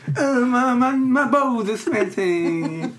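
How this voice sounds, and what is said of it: Whiny old man voice. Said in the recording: “I normally do the old man. Wingy voice.”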